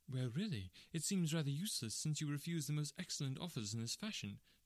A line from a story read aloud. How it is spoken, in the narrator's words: said she sharply